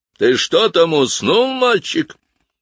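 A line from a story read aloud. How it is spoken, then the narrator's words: Booming voice. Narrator (Russian): прогремел голос дудочника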